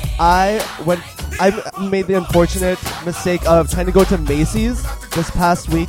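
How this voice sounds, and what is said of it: Valley girl accent. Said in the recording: “People always tell me to lose the accent too, but I'm speaking English to them. ... Valley is English.”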